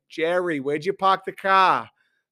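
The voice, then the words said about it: Put-on Boston accent. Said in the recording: “There's a little bit of the Boston.”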